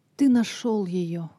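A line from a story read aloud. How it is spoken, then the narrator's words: Exclamation. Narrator (Russian): воскликнула Лиза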